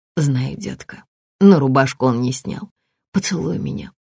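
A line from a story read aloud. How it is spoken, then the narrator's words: Whisper against lips. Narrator (Russian): прошептала Наталья у самых его губ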